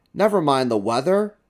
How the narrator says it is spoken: cried the owner

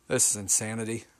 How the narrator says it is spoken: mumbled

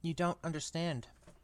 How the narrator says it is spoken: said Harry

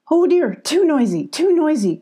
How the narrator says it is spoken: cried Billy

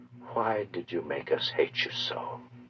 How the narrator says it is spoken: she said quietly

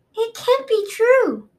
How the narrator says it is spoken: Peril cried

